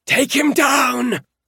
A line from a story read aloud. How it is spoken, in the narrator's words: Kellen shrieked